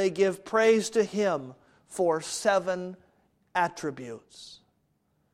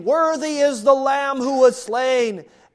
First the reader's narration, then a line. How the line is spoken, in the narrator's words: in a loud voice, they sing